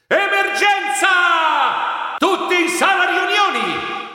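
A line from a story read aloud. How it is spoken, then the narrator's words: Shouted. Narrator (Italian): gridai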